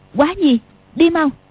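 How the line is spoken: Sharp shout. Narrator (Vietnamese): bật dậy quát

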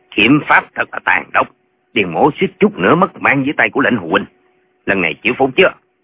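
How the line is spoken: Cold sneering. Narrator (Vietnamese): Điền Bá Quang cười nhạt nói

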